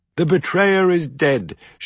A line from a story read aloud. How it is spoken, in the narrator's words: shouted a blood elf triumphantly